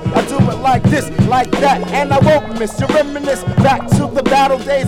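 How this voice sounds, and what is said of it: Breathless, hoarse rapping voice. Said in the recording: “I'm kind of running out of breath ... my voice kind of hoarse”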